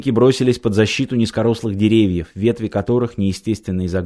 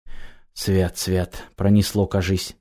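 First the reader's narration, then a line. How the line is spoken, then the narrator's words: Whispering. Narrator (Russian): зашептал шаман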